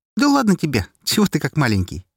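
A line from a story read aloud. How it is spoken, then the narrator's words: Cheerful reply. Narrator (Russian): весело отозвалась Настя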